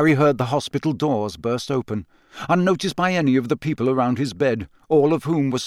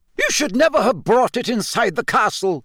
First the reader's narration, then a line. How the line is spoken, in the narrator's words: yelled Professor McGonagall